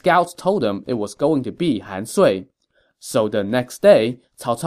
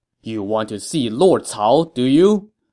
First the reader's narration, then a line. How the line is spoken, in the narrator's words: Cao Cao shouted to them